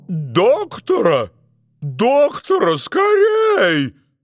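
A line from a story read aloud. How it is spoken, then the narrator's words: King shouting. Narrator (Russian): закричал король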